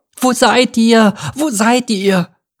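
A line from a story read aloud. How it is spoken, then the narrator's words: Calling out. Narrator (German): rief er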